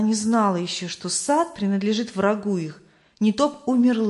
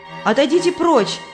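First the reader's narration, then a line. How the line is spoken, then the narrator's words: Shouted. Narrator (Russian): крикнула Христиана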